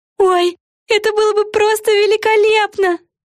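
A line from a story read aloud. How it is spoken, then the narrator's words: Joyful squealing exclamation. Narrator (Russian): Взвизгнув от радости, воскликнула Яна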